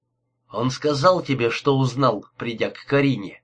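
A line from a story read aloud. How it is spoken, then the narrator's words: Plain. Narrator (Russian): спросил Инглиш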